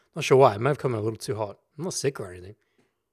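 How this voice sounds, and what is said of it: Slightly raspy voice. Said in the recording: “My voice is a little raspy at the moment.”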